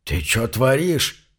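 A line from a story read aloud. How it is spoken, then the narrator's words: Hoarse wheeze. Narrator (Russian): прохрипел стоявший неподалеку рудокоп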